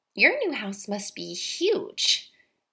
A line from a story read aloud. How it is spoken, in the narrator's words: Maggie sneered